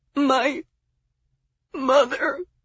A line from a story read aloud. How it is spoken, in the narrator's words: Miles moaned